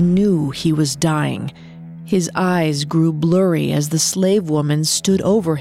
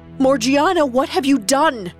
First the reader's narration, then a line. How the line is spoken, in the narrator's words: Ali Baba screamed, in disbelief and horror